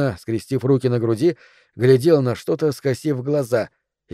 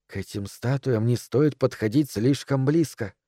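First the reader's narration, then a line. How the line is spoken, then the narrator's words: Whisper. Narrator (Russian): шепнула миссис Дэрроу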